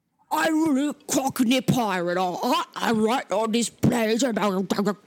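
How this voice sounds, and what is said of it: Cockney pirate accent sounding Australian. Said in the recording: “Sounds Australian, yes. He sounds like an Australian pirate.”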